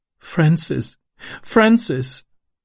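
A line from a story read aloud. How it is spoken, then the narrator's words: Sobbing. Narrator (German): schluchzte sie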